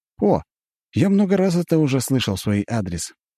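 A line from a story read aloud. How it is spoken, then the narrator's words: Calm answer. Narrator (Russian): спокойно отвечает Джон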